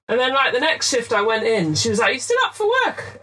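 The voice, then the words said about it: English accent. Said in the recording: “You've got a really good sort of English accent.”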